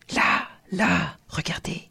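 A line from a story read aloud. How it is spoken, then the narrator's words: Whisper. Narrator (French): chuchota le comte Kinocéphalos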